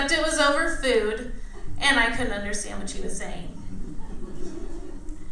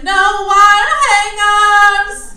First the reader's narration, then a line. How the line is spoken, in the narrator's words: Faye Dunaway's yelling